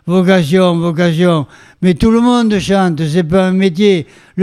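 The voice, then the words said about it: Put-on Béarnais French accent. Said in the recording (French): “avec son bel accent bernais”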